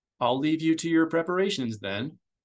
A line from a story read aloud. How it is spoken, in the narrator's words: Grass said